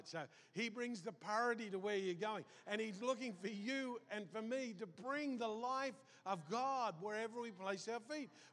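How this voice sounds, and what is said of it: Accent where party sounds like potty. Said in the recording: “with my accent, it sounds a bit like potty, but I'm saying party”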